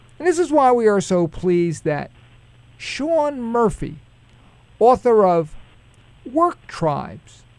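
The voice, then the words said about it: Brooklyn accent. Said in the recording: “It's got that nice accent. I don't, is it a Brooklyn accent?”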